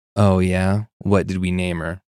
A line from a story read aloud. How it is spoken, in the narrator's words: He laughed sarcastically and said